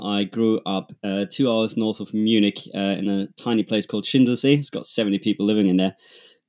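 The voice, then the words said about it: German accent. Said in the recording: “as you might hear from my accent, I'm German.”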